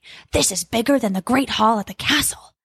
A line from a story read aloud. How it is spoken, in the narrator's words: Jack whispered softly